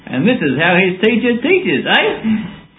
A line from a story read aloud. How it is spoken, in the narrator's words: Nathan's father laughed and said